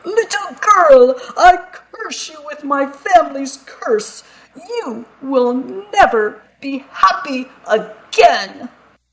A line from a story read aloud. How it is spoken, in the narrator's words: The Archduke shouted